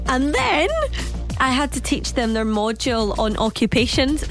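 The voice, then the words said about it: Broad Glaswegian accent. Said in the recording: “mocking my accent ... in a broad Glaswegian accent”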